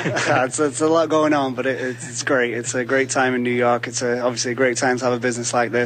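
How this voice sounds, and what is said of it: English accent. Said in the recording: “I can detect from your accent as well, there may be a connection here.”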